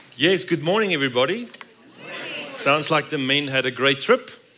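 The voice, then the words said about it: South African accent. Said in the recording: “He's from South Africa. He's got a great accent.”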